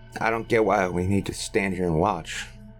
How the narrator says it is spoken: muttered Roy with a scowl

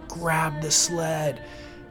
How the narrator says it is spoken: screamed again

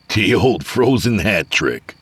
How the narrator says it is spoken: Avery said, chuckling

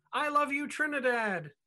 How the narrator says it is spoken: At a show in Tobago, she exclaimed

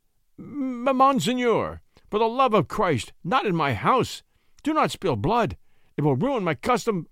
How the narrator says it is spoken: The landlord, in an ague of terror, stammered

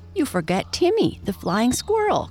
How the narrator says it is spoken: cried Peter excitedly

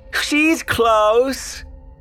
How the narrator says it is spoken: said before giggling uncontrollably

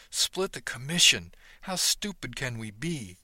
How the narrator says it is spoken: chuckled

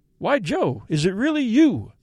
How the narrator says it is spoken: I exclaimed

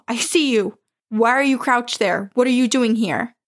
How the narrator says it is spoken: I shouted down the hall

